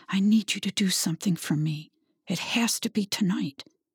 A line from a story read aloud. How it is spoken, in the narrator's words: Her heart was pounding whispered in his ear